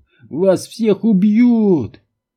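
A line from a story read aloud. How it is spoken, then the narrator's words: Sobbing, furious hateful shout. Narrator (Russian): Диджей всхлипнул и с ненавистью яростно выкрикнул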